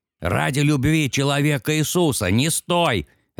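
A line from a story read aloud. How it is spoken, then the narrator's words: Harsh bark. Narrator (Russian): рявкнул стрелок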